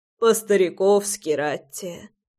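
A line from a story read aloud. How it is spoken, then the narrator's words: Sighing, grandfather. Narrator (Russian): вздохнул дедушка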